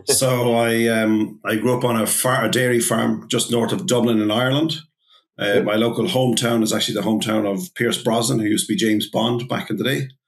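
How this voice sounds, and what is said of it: Strong Irish accent. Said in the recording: “This is a very strong Irish accent.”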